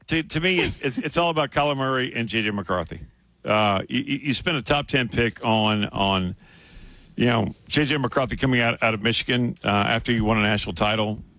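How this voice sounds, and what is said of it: Strained, failing voice. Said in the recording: “I'm losing my voice ... your voice is struggling a little bit”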